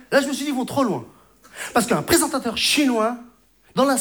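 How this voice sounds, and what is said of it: Usual voice. Nothing is said of it.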